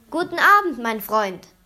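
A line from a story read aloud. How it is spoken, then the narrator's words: Calling out. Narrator (German): rief er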